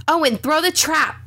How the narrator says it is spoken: screamed

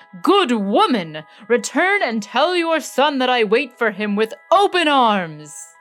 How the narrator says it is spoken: the Sultan exclaimed to Aladdin's mother

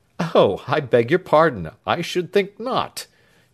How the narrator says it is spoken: chuckled Snitchey

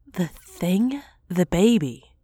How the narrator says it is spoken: asked

